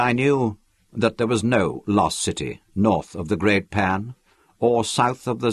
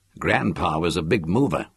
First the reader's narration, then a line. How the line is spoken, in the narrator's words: remarked bitterly in English